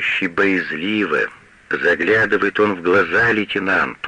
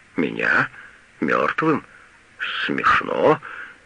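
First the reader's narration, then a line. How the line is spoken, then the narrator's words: Muttering. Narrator (Russian): бормочет Мейер губам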